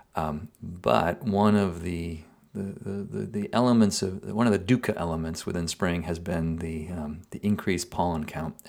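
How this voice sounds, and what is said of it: Groggy, congested voice. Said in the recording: “you can probably hear it in my voice now... please forgive any grogginess you might perceive in my voice”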